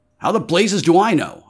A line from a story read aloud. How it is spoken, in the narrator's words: I snapped